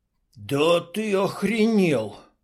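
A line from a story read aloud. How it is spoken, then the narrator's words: Hoarse mumble. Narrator (Russian): севшим голосом промямлил Клоп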